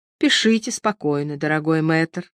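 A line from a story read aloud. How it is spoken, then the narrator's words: Gentle coaxing priest. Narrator (Russian): ласково уговаривал его священник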